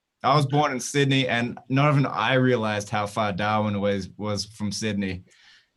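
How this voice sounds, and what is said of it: Noticeable regional accent. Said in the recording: “you have a bit of an accent ... We're used to the accent here on the show”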